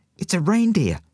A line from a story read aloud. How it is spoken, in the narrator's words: squeaked Goliath